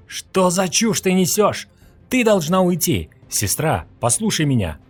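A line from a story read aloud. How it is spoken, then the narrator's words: Loud exclamation. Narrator (Russian): Громко воскликнул Юэ Джен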